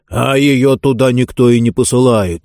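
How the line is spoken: Angry snapping. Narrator (Russian): сердито огрызался Джонс

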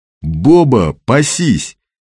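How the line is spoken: Loud shout. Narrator (Russian): крикнул он так, чтобы абонент услышал

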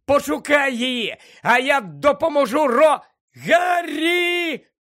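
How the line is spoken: Sudden shriek. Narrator (Ukrainian): раптом заверещала

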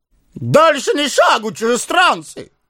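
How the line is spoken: Loud guttural shout. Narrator (Russian): зычно крикнул начальник стражи, на своем гортанном языке

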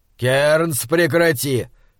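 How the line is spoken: Warning bark. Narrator (Russian): предостерегающе рявкнул монстролог

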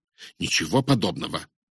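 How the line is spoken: Angry objection. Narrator (Russian): сердито возразил я

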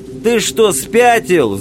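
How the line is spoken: Yelling. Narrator (Russian): завопил пехотинец

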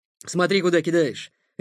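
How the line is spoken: Angry bark. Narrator (Russian): рявкнул он

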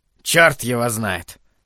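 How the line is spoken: Grumbling mutter. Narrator (Russian): пробурчал Холоран

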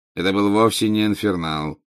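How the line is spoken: Bored interruption. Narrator (Russian): скучающим голосом прервал его Снег

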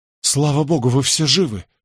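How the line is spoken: Relieved exhale. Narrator (Russian): с облегчением выдохнул я

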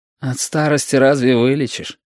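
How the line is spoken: Sighing. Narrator (Russian): вздохнул Яшка

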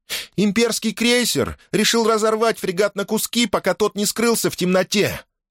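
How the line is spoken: Shout. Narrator (Russian): крикнула принцесса

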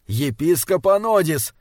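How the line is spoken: Nervous, irritated shout. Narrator (Russian): нервно и раздраженно закричал Стренгьярд

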